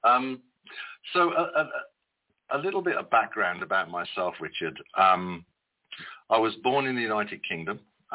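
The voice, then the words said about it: British accent. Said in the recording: “The accent kind of gives it away, doesn't it? ... you Brits, you could read the phone book and sound like a genius”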